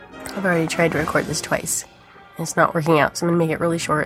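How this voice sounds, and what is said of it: Congested voice with a cold. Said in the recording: “I have a cold”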